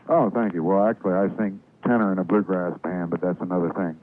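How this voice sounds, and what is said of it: Deep rich voice, southern accent. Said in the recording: “You got an interesting voice, very deep, rich voice ... you have sort of a southern accent”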